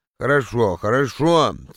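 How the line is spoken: Sleepy agreement. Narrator (Russian): сонно согласился я

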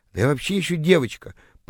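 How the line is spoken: Confused mumbling. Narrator (Russian): пробормотала растерявшаяся тыква

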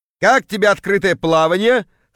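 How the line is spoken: Chuckling. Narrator (Russian): хохотнул появившийся Кравчук

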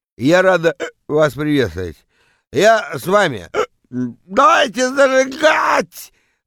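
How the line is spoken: Yelling into microphone. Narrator (Russian): Вопит она в микрофон

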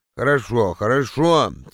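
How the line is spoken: Sleepy agreement. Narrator (Russian): сонно согласился я

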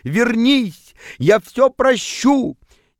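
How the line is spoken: Pleading shout. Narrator (Russian): он приполз к вам на коленях и кричал

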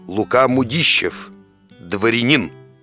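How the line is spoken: Hoarse drunken bass. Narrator (Russian): дородный, видный господин и прохрипел пропитым басом

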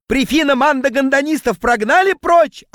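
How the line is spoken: Yelling. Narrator (Russian): орал он

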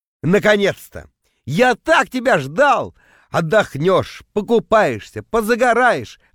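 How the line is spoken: Hypocritical yelling. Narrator (Russian): в ответ орал я, вслед за Витьком превращаясь в лицемерного монстра

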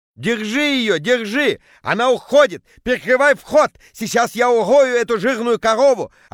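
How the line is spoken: Yelling. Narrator (Russian): орал Петя

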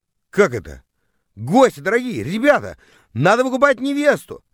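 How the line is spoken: Yelled. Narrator (Russian): завопил я

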